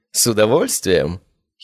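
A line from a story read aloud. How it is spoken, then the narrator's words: Giggling. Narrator (Russian): хихикнула она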